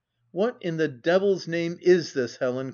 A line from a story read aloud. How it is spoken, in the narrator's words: cried he